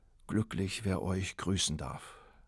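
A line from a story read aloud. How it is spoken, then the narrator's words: Sighing young man. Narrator (German): seufzte der Bursche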